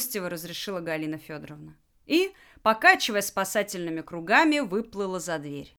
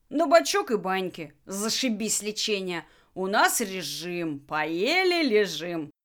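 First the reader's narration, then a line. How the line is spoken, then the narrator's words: Bursting into laughter. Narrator (Russian): расхохотался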